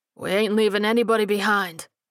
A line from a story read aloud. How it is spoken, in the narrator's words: the old man replied gruffly